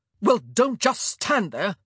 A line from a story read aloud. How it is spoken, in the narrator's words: Antony snapped